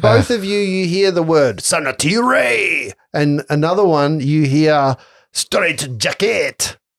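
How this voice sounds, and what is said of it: Put-on French-sounding fantasy accent. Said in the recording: “With a French accent ... It's in Gnomish. That's the Gnomish accent.”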